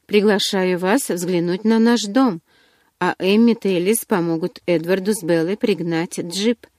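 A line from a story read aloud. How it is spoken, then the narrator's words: Completely calm. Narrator (Russian): совершенно спокойно проговорил доктор Каллен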